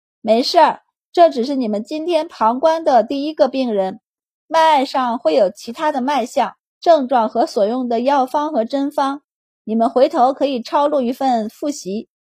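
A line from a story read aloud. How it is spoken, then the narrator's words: Smiling. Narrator (Chinese): 周满对他们笑道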